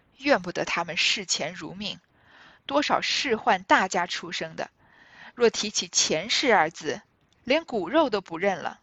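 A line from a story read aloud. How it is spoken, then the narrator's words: Drunken sigh. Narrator (Chinese): 邢大舅醉露真情起来，对贾珍叹道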